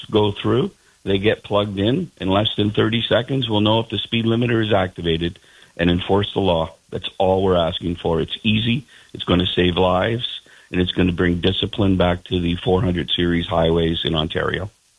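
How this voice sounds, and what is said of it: Frustrated, angry tone of voice. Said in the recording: “that is our frustration. I'm sure you can hear it in my voice. ... I do hear it in your voice. I hear more than frustration. I hear some anger in your voice.”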